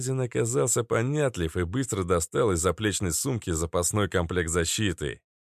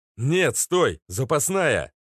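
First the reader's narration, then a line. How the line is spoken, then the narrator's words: Shouted. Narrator (Russian): закричал Макс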